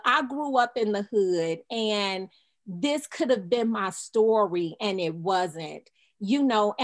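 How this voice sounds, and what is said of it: Emotional, choked-up voice. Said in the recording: “I'm getting a little emotional about this”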